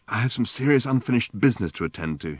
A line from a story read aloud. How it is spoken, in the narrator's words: he exclaimed